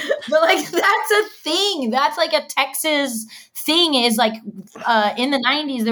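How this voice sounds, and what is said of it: Usual voice. Nothing is said of it.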